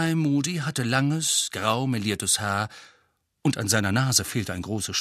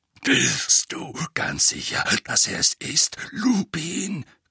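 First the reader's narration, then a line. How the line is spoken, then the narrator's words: Growling. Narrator (German): knurrte er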